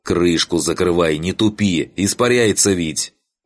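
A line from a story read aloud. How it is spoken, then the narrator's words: Yelling. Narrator (Russian): он заорал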